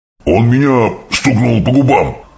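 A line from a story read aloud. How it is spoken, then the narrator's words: Roaring, just woken. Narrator (Russian): взревел разбуженный Кровь Кап-Кап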